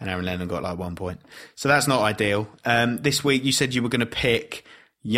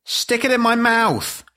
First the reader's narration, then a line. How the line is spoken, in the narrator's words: shouted Timmy's mum